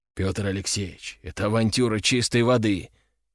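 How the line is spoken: Quiet. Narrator (Russian): тихо сказал он

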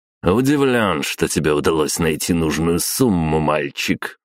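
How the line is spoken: Smug snort. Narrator (Russian): хмыкнул граф

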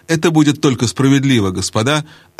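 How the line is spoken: Plain. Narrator (Russian): ответил Каспиан

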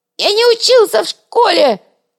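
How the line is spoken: Squealing. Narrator (Russian): завизжал Шкварка

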